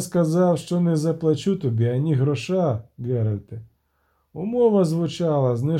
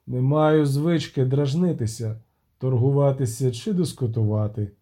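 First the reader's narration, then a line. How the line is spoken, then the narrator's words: Calm reply. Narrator (Ukrainian): відповів спокійно Агловаль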